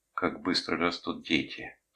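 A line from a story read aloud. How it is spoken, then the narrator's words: Quiet mutter. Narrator (Russian): тихо пробормотала она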